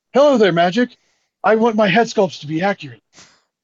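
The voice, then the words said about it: Kenny Omega impression, anime villain voice. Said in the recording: “like an anime villain ... worst Kenny Omega impression”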